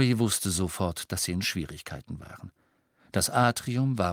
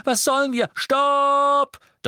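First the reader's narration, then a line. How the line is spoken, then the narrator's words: Thundering, booming voice. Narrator (German): donnerte Harry, und die mächtige Stimme Runcorns hallte durch das Atrium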